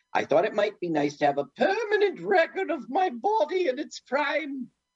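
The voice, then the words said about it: Imitated accent of a royal woman. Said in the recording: “You really nail her accent, you know, her being royalty and such.”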